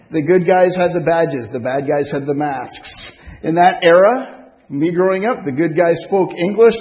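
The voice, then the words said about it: French accent. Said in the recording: “This is coming from somebody with a French accent.”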